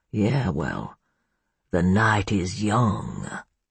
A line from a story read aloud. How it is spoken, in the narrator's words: he growled